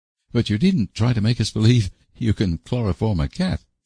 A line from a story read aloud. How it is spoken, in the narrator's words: laughed Anne